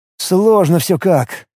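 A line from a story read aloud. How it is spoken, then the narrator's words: Sighing. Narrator (Russian): вздохнул скрипач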